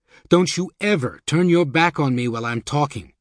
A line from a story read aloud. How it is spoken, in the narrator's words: he shouted